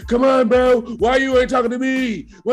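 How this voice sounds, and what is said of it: Imitates a drunk, angry man. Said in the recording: “this guy who's a Bills fan, he's drunk”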